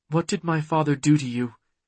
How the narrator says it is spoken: In a softer tone, she asked

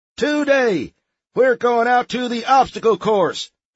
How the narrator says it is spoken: the sergeant boomed

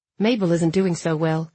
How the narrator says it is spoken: Noah said, his voice even

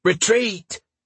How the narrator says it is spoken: Dietrich shouted

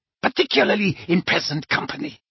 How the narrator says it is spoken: snarled Bellatrix

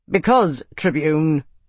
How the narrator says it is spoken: Arna said in a tight voice

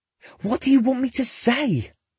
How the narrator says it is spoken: He hisses again

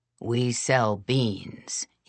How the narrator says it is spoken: he rumbled

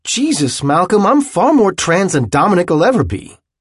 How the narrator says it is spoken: had finally shouted at him

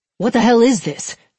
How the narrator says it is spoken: Hicks snapped

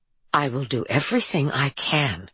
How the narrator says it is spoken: Harper said, struggling to keep her voice even

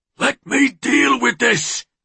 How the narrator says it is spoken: Will had roared

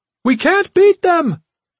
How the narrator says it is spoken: Kebi cried

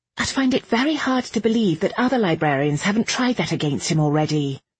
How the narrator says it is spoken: Irene snapped before she could help herself

